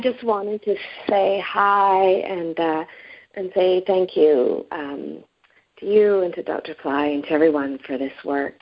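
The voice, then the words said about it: Unwell, sick-sounding voice. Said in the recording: “I sound bad because I've got a cold”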